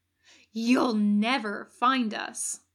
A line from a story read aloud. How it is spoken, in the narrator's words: Mark snarls